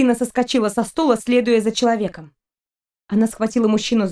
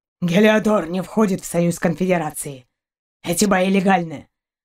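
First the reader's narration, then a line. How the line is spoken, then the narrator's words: Rough low dog voice. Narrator (Russian): Отозвался грубым низким голосом пес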